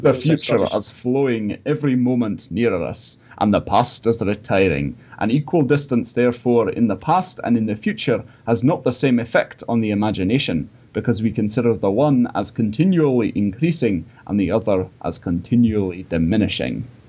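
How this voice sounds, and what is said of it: Weak put-on Scottish accent. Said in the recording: “That wasn't a very good Scottish accent, but it was what Hume said”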